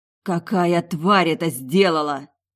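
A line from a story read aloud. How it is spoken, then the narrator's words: Hoarse hiss like kite. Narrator (Russian): Просипела коршуном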